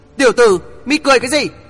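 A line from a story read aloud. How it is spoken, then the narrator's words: Loud shout. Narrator (Vietnamese): Quỷ Diện Lang Nhân hét lớn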